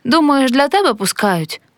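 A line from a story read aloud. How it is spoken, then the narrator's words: Stern smiling. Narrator (Ukrainian): суворо посміхнувся Степан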